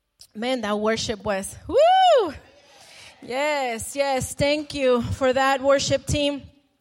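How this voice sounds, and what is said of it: Breathless, out-of-breath speech. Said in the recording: “I'm hot. I'm out of breath.”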